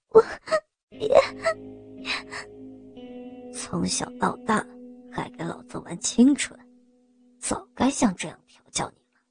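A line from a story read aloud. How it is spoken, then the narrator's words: Nearly crying. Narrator (Chinese): 我差不多哭道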